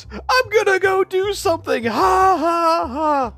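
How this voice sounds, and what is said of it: High-pitched imitation of another person. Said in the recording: “my impression of Bam Margera. It's basically just him in that high-pitched voice”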